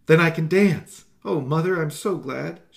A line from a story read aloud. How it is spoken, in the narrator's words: Susie cried happily, scarcely able to believe her ears